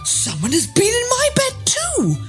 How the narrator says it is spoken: all exclaimed

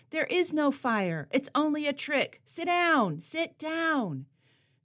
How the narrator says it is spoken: she leapt onto a chair in the audience, and she shouted

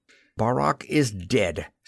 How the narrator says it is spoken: snapped Jetter quite ungraciously

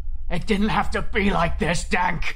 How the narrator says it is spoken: Carl screamed sadly

